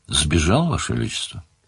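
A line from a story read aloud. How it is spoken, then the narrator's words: Calm. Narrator (Russian): спокойно сказал тот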